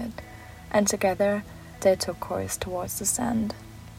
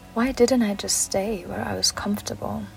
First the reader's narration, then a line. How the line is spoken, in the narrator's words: He sighed